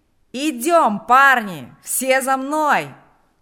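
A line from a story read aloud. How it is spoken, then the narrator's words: Shouting. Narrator (Russian): кричал Панас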